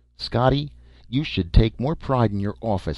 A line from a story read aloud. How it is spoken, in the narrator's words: snapped Polly